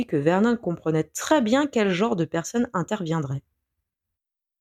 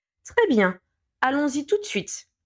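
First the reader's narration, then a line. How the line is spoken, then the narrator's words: Curt interruption. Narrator (French): coupa sèchement Pétunia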